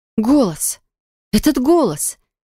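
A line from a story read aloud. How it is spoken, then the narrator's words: Stunned breathless exhale. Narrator (Russian): Не веря своим ушам, я выдохнула, чувствуя, как сжимается все внутри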